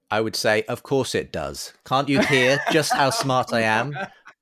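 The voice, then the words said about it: British accent. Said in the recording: “talking with a British accent”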